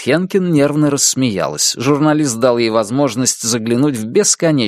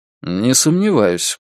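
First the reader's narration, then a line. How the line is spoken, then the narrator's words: Dry. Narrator (Russian): сухо произнес Джек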